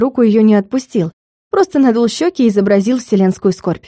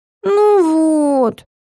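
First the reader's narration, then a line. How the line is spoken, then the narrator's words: Disappointed drawl. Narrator (Russian): протянул Сёмка разочарованно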